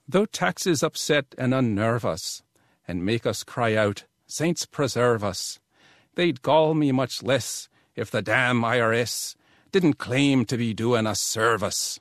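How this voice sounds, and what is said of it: Put-on Irish accent. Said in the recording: “it cries out for a little dialect treatment, I think, in honor of St. Patrick's Day.”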